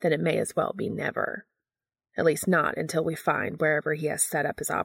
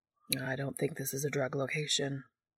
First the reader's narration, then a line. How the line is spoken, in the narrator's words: Balthazar says quietly